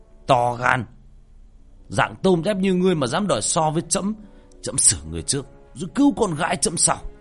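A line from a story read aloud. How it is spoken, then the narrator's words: Shouting. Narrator (Vietnamese): Ca Lâu Vương thấy vậy liền hét lên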